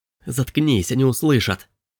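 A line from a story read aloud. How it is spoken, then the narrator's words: Hissing. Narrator (Russian): Прошипел Робби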